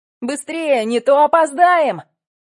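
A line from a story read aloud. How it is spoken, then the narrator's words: Shouting. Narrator (Russian): кричал Женя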